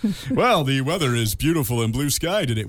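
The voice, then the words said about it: Exaggerated radio announcer voice. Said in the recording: “put on my radio voice”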